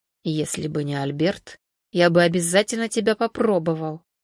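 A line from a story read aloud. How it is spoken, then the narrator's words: Sinister whisper. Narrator (Russian): зловеще прошептал Константин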